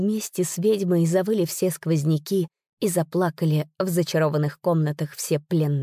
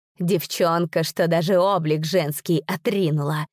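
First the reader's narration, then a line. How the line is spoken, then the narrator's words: Witch's hiss. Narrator (Russian): прошипела ведьма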